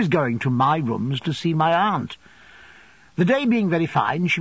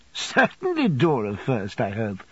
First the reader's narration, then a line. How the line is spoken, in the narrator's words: said Agnes, laughing